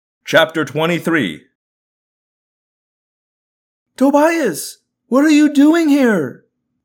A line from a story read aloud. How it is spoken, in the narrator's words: I yelled in sheer joy at seeing him